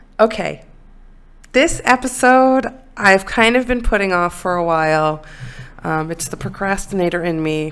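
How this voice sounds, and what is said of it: Congested voice with sniffles. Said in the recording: “I have a little bit of a cold, so pardon me if you hear some sniffles”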